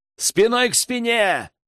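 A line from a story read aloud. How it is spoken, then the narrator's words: Shout. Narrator (Russian): крикнул Рэм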